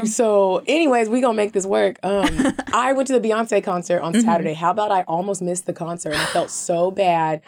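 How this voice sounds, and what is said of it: Raspy voice. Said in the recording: “As you can hear, my voice is raspy.”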